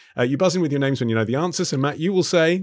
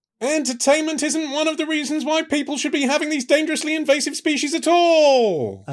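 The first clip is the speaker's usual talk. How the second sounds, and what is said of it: Murray Walker F1 commentator impression. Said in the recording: “in the style of dearly departed F1 commentator Murray Walker ... despite my impression.”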